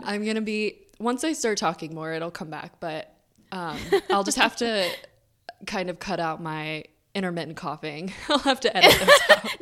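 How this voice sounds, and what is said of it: Raspy, hoarse voice. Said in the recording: “I have a cold, so my voice is a little bit raspy ... It's extra raspy.”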